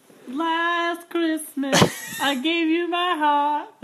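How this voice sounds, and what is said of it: Mimicked child's singing voice. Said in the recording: “Are you mocking my niece's singing? ... I'm mimicking it.”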